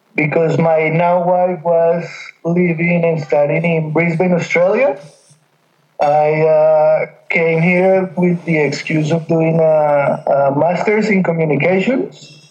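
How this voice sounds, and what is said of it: Colombian accent, slight Australian twang. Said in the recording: “a slight twang in your accent, a slight Australian accent, but it's not taken over ... you are definitely from Colombia”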